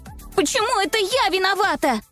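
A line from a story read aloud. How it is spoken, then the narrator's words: Yelling. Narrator (Russian): вопила другая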